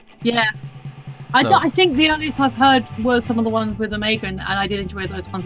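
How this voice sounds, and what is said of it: English accent. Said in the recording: “the accent isn't fake. I really am in England ... In and from all my life ... from across the pond”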